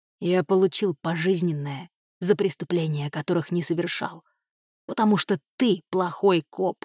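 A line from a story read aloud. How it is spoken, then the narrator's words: Hissing. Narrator (Russian): прошипел он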